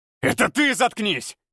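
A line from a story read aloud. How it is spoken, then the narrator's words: Growl. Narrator (Russian): Прорычал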